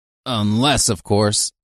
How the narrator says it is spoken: he grunted

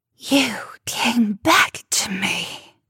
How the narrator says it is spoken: she hissed

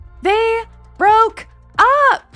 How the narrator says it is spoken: Lana shouted

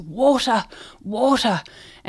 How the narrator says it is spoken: they're dying, and one of them gasps

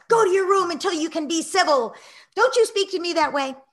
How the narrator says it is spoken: yelling

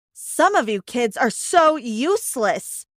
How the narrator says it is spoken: one of my teachers yelled at me

